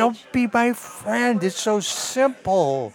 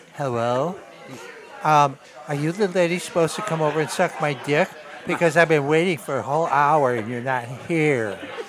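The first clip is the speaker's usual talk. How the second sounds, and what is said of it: Very affected put-on phone voice. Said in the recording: “he does this very affected ... I can do the voice”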